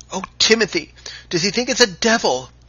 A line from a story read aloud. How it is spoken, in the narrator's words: cried the boatswain's mate in a voice that even the Canadian must have heard